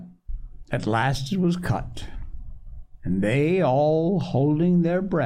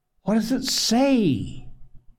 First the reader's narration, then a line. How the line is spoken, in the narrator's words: gasped Mrs